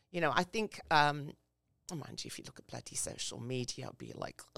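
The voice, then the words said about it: English accent. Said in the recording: “I grew up in England. So as you can hear from my voice.”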